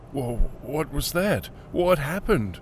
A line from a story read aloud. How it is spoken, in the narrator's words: stammered